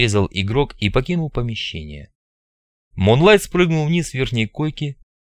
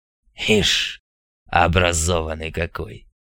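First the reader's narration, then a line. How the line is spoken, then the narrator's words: Grumbled. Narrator (Russian): проворчал Мун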